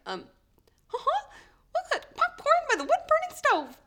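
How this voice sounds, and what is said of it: Mickey Mouse cartoon character voice. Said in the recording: “I had to be Mickey Mouse once for a kid's party ... I'm going to try and do the voice ... That's pretty good, right? I was rusty.”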